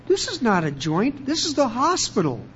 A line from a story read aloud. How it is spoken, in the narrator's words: the consoling nurse said, very kindly